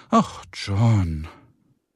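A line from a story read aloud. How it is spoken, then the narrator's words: Sighing. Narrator (German): seufzte Carrie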